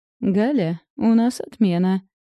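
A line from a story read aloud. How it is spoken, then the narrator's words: Chuckled. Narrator (Russian): хохотнула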